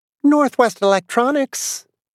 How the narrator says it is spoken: the girl said brightly

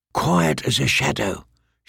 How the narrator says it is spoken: whispered

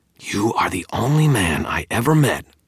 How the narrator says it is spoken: Tara growled

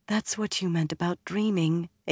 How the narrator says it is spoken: Egwene said softly

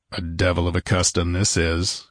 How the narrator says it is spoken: growled Conan

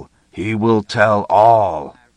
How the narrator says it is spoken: the beast rumbled

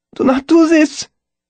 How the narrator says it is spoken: Keith begged me

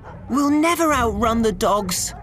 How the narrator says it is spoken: cried Tiffany

